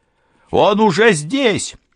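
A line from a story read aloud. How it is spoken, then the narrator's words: Shouted. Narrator (Russian): крикнул Алессандро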